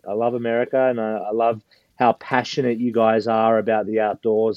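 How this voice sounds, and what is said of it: Australian accent. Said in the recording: “As you can hear, I've got an Australian accent. So I'm originally from Australia.”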